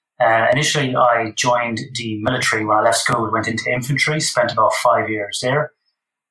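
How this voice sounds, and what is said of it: Irish accent. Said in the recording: “Obviously from my accent, born and raised in Ireland.”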